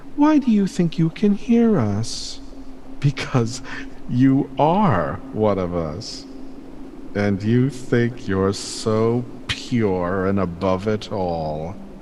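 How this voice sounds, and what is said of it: Gentle voice with malice and contempt. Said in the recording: “the malice and contempt vibrating in that gentle voice”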